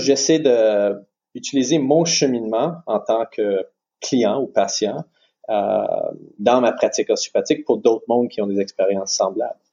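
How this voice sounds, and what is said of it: French with an anglophone accent. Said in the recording (French): “t'as un accent ... un peu plus du côté anglophone. C'est pour ça qu'on entend ce, euh, ce super euh, accent anglophone, avec des anglicismes des fois.”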